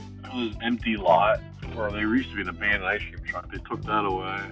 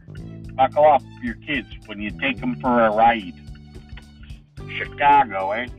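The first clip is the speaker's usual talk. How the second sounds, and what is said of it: Chicago accent impression. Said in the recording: “Alright, that's better. That's a fucking Chicago accent. Much, much better.”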